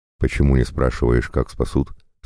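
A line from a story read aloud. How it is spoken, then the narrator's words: Plain. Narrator (Russian): спросил Игорь Петрович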